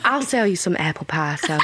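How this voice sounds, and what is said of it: Put-on American Southern accent. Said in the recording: “Oh my God, that is gorgeous though. Like, genuinely, what an incredible accent ... like a beautiful southern belle somewhere in the deep south”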